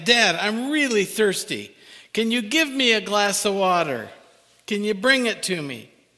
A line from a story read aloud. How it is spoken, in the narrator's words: the son called out again